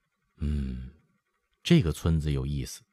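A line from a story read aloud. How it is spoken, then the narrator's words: Sighing. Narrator (Chinese): 永眼…叹说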